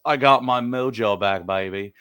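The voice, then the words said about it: Austin Powers character voice impression. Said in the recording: “That's my best Austin Powers impression”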